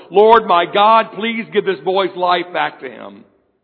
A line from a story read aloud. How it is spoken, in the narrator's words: cried out to the Lord